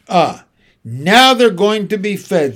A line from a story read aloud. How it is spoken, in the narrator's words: said the lion, excitedly